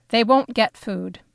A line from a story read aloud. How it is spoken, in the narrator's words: Papa answered in a short, hard voice I didn't recognize as his